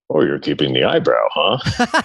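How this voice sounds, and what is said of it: Mimicked dad voice. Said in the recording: “That's a great dad voice.”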